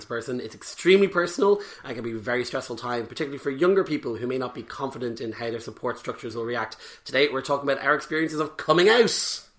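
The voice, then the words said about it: Hoarse, croaky voice. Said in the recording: “my voice is completely dead... speaking sexy today... my sexy new voice... a little bit of a head cold going on, which is giving me my lovely new voice... dulcet tones”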